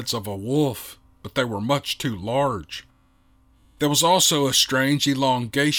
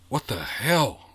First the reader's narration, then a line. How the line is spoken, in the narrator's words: whispered Gray Eagle